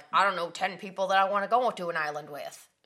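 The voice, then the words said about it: Poor imitation of another person's voice. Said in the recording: “That's a terrible impression of your husband.”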